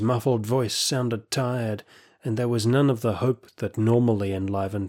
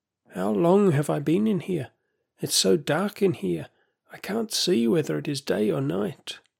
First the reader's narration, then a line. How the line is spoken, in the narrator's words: he croaked